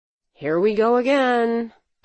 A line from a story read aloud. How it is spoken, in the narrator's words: I groaned